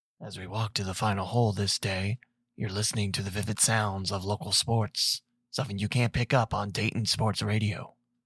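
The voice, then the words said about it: Golf broadcaster voice. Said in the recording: “golf broadcast impersonation”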